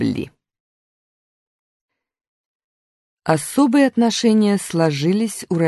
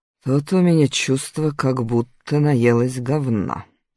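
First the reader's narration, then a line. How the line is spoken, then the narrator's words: Grumbling. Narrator (Russian): пробурчала Фаина Георгиевна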